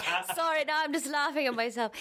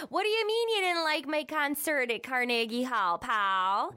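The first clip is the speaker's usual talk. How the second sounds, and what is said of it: Minnesota accent. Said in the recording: “my Minnesota accent ... the way that you did when you were growing up”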